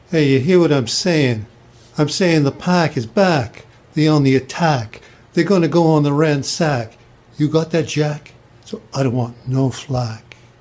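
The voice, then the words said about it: Accent with unusual A vowels. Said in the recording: “He says his A's kind of weird. ... It's called an accent”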